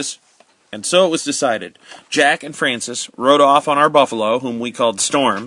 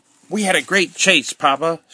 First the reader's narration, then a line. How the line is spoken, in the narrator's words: cried Jack